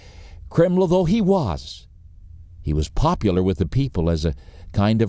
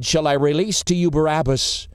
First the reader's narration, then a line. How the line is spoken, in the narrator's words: they said